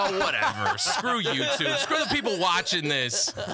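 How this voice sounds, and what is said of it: Usual voice. Nothing is said of it.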